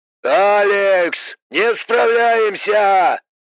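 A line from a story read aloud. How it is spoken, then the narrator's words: Shouted. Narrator (Russian): прокричал Боб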